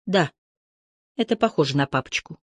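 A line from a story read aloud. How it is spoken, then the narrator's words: Barely audible tiny whisper. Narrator (Russian): в глубине ее души тихонький голосок почти неслышно прошептал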